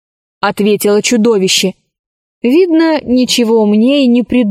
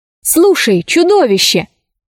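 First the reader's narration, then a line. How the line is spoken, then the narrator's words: Exclamation. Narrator (Russian): воскликнула Алиса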